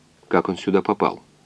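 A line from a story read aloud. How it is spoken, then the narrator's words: Quiet question. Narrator (Russian): тихо спросил доктор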